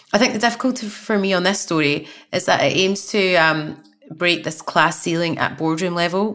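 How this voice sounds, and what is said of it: Glaswegian Scottish accent. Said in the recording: “someone with a Glaswegian accent”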